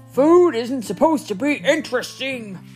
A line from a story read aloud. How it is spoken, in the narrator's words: roared Papa